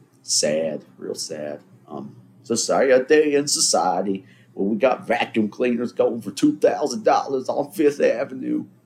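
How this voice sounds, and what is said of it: Made-up old man character voice. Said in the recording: “I don't know who I'm imitating there. It's just a character that I made up. That's Manoli commenting on society... Old man Manoli has had it”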